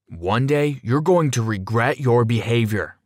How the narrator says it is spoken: yelled at me through the door

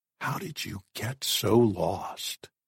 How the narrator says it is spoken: Jack whispered in tears

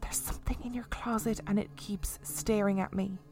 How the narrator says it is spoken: She whispered

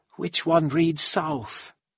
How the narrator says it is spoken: asked quietly

